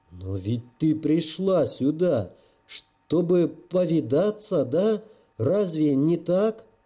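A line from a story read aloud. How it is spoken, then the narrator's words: Muffled desperate giant voice. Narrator (Russian): Глухо и отчаянно выговорил гигант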